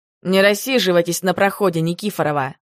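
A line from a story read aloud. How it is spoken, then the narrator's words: Barked. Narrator (Russian): гаркнул знакомый голос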